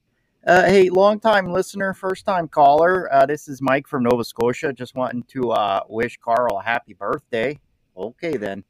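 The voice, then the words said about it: Speaker with a regional accent. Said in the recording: “did you notice his accent?”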